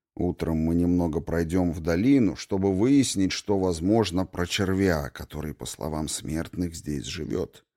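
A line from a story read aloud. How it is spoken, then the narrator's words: Quiet. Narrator (Russian): тихо сказал он мне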